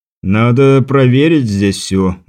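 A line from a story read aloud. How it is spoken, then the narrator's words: Tired speech. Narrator (Russian): устало произнес Теодор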